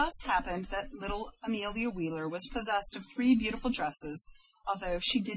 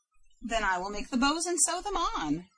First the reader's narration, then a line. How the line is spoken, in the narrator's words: replied Grandmother Wheeler happily